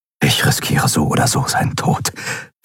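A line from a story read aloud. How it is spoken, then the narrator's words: Whispered. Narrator (German): flüsterte er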